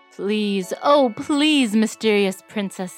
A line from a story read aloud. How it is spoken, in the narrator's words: said the prince